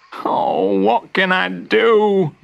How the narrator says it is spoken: Morris cried

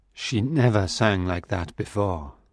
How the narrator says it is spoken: Raoul said quietly to his brother

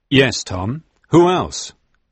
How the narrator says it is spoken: asked firmly

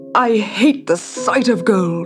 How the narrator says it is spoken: said Midas, groaning in despair

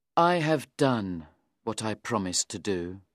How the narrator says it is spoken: Meltham said sadly to me

